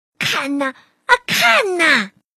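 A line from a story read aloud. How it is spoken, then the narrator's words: Sudden shout from summit. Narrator (Chinese): 突然，他站在山顶上大喊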